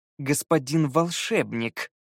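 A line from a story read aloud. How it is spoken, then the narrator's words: Corrected through teeth. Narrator (Russian): сквозь зубы поправил Скай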